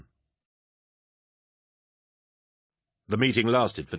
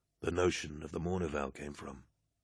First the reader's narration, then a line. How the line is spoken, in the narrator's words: he began quietly